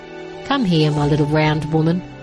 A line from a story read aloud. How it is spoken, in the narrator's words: Merek chuckled